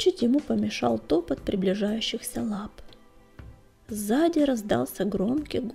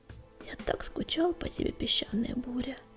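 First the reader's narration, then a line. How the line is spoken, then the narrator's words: Soft whisper. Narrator (Russian): тихо прошептал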